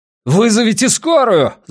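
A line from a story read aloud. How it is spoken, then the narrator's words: Wolf's yell. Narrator (Russian): заорал волк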